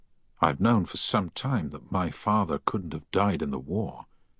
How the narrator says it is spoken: Harry said quietly

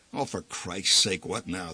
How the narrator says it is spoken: the old man muttered

